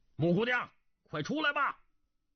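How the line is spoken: Called three times. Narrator (Chinese): 他连叫三声

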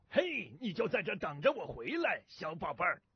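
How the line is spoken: Loud. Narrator (Chinese): 那个大个头……大声地对牛说道

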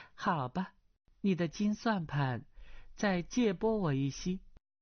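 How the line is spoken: Laughing. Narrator (Chinese): 阿碧笑道

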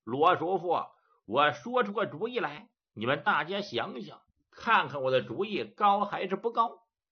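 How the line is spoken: Laughing. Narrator (Chinese): 杜林接笑

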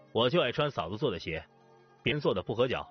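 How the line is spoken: Cold. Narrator (Chinese): 方南却冷冷地说

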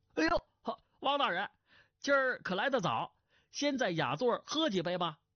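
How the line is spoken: Smiling greeting. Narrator (Chinese): 酒保忙含笑上来招呼，说道

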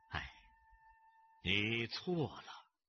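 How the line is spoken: Long sigh. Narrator (Chinese): 谢晓峰忽然长叹

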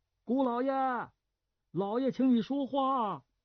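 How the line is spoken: Loud shout from below. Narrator (Chinese): 下边花园里当差高升大声喊上来

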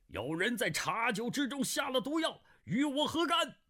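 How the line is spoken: Loud shout. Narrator (Chinese): 他大声叫道

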